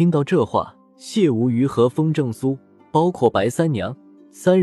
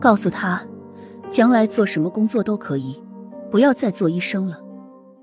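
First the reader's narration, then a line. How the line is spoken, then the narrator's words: Sighing. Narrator (Chinese): 杨杰叹了一口气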